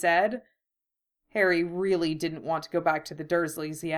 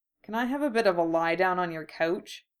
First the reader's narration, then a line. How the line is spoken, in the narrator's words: asked